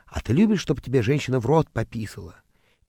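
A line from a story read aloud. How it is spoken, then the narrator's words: Man's fervent whisper in ear. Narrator (Russian): к моему уху все время прилипал чей-то муж и горячо нашептывал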